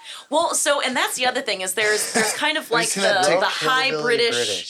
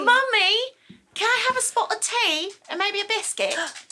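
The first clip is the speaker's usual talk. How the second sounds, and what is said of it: British accent, Peppa Pig style. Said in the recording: “let's hear your British accent, like Peppa Pig.”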